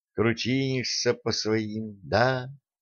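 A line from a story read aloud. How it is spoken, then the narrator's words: Quiet question. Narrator (Russian): негромко поинтересовалась Алена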